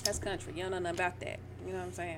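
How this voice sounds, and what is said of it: Southern country twang. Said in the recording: “That's just my country twang. ... that's how we say it down here.”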